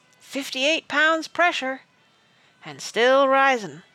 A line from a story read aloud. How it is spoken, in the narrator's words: someone called out